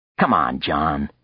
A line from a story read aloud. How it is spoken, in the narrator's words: Frank snapped